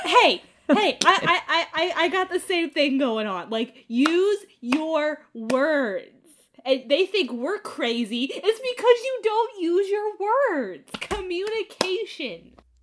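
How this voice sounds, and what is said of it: Yelling, loud voice. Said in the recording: “I'm yelling.”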